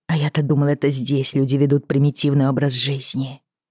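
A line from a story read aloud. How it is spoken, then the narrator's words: Muttering. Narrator (Russian): пробормотала Брианна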